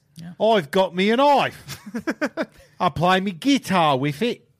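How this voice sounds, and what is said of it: Put-on Australian accent. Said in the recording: “You should be famous for those voices, especially... Especially the... Australian”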